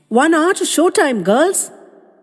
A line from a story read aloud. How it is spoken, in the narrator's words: She lifted her voice and called out with determined jollity